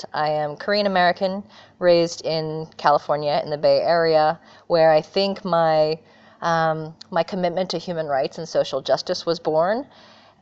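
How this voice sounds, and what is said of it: American accent. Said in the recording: “I have the great fortune of being an American. You can probably hear from my accent.”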